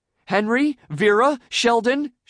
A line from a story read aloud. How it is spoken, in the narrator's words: she called out in desperation